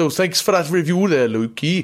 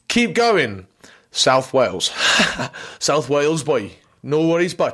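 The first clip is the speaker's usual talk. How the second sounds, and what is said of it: Put-on South Wales accent. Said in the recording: “I'm not going to do an accent anymore.”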